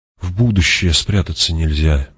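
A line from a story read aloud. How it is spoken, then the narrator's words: Soft. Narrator (Russian): мягко сказал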